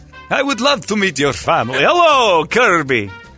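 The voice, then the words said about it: Put-on Transylvanian Dracula accent. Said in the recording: “Your accent and my desire to be friends with a Transylvanian was overwhelming my reality.”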